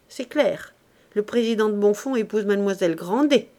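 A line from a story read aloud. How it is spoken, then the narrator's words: Exclaimed. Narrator (French): s'écria madame d'Orsonval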